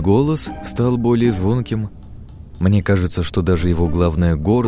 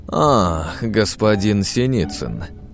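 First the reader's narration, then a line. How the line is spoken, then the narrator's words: Reluctant drawl. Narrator (Russian): как-то нехотя протянул Андрей Углов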